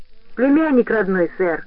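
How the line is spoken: Joyful declaration. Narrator (Russian): радостно заявил Фейни

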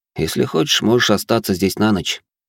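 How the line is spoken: Calm. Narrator (Russian): спокойно произнёс я

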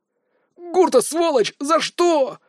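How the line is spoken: Howling in pain. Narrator (Russian): взвыл почти одновременно с ним Дар, грохнувшись рядом с другом и с воплем

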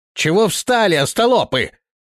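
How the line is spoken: Shouted. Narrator (Russian): крикнул высунувшийся хозяин кареты

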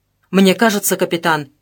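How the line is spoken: Sharp, abrupt. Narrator (Russian): резко произнес Холмов

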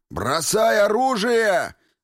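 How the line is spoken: Yelled command. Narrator (Russian): заорал Воротников

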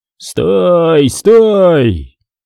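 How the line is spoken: Shouting to riders. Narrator (Russian): он кричал своим конникам

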